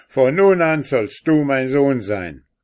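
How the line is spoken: Calling out. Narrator (German): rief

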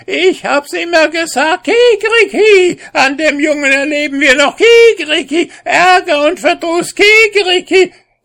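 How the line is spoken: Stepmother shouting. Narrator (German): schrie die Stiefmutter drauf los

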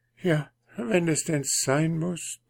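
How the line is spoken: Hesitant, halting. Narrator (German): druckste die Prinzessin herum

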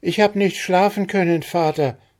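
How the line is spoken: Called back. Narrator (German): rief zurück

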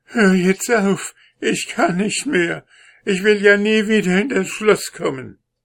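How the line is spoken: Weak call. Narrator (German): rief er wieder mit schwacher Stimme

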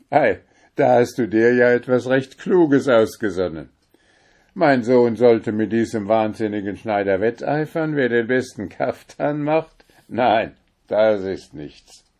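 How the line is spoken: Laughing. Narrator (German): Der Sultan lachte und sprach

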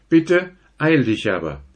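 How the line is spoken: Calling after. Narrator (German): rief er der Ausgestiegene nach

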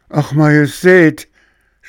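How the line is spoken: Frightened steward's shout. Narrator (German): schrie der Haushofmeister erschrocken

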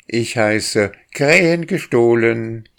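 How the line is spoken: Boy shouting. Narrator (German): schrie der Junge

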